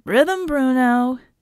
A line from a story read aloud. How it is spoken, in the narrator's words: Red taunted from his perch high above the parkour course